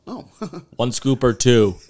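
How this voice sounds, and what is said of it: Put-on Canadian accent. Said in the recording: “Is a Canadian accent. ... I was doing my best.”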